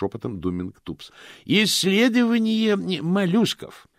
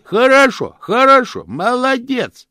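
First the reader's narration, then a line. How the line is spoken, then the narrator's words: Loud cupped-hands shout. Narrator (Russian): кричал Чудакули, сложив ладони у рта для громкости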